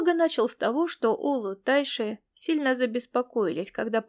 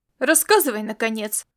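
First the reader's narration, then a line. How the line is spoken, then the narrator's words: Bark. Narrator (Russian): рявкнул Ласло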